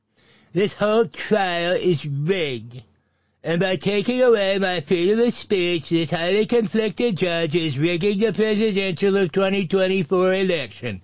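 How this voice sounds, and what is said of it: Silly put-on voice. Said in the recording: “You heard how I read that. Here, let's do that without the stupid voice.”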